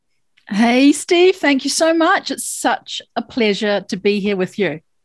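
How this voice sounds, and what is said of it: New Zealand accent. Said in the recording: “That isn't an American accent. What accent could that be? ... I'm a New Zealander”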